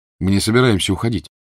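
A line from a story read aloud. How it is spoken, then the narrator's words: Plain. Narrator (Russian): сказал Гарри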